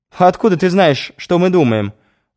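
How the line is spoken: Laughing. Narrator (Russian): рассмеялась Захарова

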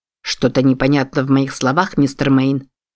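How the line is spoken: Plain. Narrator (Russian): спросил он

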